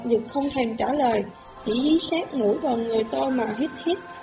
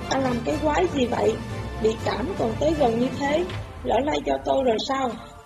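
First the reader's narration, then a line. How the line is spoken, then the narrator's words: Irritated muttering. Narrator (Vietnamese): Tôi lầm bầm một tức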